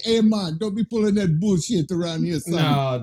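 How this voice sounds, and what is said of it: Put-on Rastafarian accent. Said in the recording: “Did he have a Rastafarian accent”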